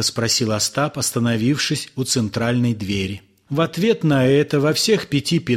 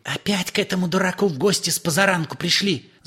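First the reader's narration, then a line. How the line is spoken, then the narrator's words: Woman's whisper. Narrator (Russian): зашептал женский голос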